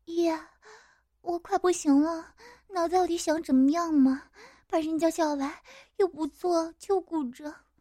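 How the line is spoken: Breathless coquettish whine. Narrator (Chinese): 喘着气，眼神迷离的对我娇嗔

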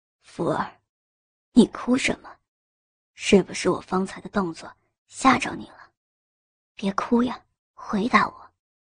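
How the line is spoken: Soft, gentle question. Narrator (Chinese): 轻声问道

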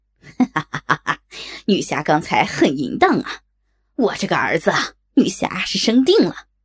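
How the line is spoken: Harsh lewd laughter. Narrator (Chinese): 船夫刺耳的淫笑

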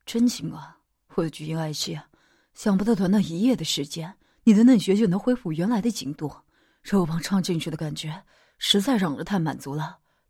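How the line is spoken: Sighing admiration. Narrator (Chinese): 杨爷吐出了一口气，赞叹着

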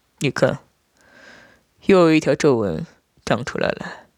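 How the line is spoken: Soft, tender. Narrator (Chinese): 轻声的说道

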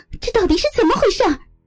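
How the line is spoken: Nearly shouting. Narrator (Chinese): 我几乎是冲着他们喊了起来

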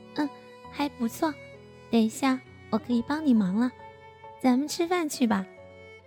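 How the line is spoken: Smiling. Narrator (Chinese): 他笑着说道

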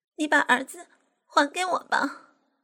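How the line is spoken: Weeping. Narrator (Chinese): 哭哭啼啼的说

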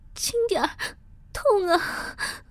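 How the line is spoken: Pleading in pain. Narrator (Chinese): 我忍不住哀求道

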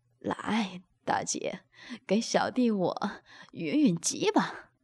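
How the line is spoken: Laughing. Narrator (Chinese): 宋明笑道

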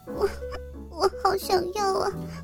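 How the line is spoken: Tearful complaint. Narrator (Chinese): 佳佳哭了，哭诉着说道

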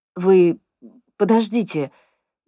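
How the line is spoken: Hesitant, faltering request. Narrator (Russian): неуверенно просит медбрат, но запинается

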